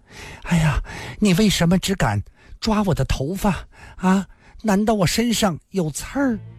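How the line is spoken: Moaning, panting, pained excitement. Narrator (Chinese): 虽疼出了眼泪，但水汪汪的眼睛里却露出一种兴奋的渴求之色，呻吟地喘息道

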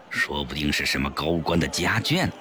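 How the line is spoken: Hushed voice. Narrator (Chinese): 肥肥也压低声音说

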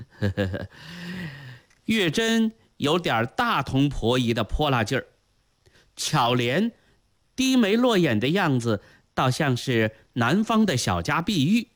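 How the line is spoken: Chuckling. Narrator (Chinese): 朱翊钧嘿嘿嘿地笑了起来，说道

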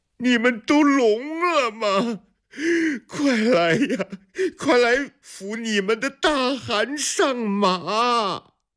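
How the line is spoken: Tearful voice. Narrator (Chinese): 施罗迭的声音变成了哭腔

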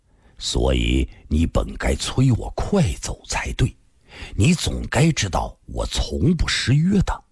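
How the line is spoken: Deep, grave. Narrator (Chinese): 沉声地说道

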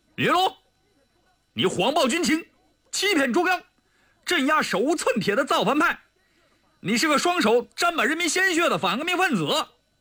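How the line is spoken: Stern shout. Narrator (Chinese): 黄特派员厉声喝道

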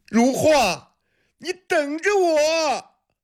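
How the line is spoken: Straining, loud shout. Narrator (Chinese): 闵国器使尽力气，大声喊着

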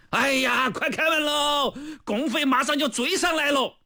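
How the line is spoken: Soldiers shouting together. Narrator (Chinese): 战士们也纷纷向城楼上的敌人喊话了

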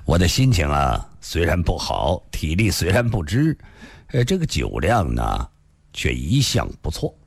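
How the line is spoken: Faint smile. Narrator (Chinese): 李寻欢淡淡地笑了笑

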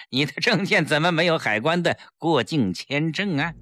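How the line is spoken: Sinister sneering laugh. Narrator (Chinese): 警察忽然狞笑起来

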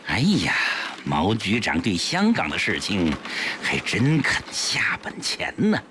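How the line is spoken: Meaningful sigh. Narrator (Chinese): 江世飞暗含深意地叹道

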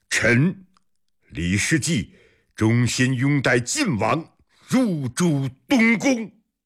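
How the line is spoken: Loud. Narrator (Chinese): 大声说

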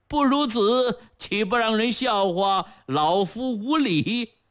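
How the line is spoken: Cheerful grinning. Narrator (Chinese): 杨伯笑呲呲地说道

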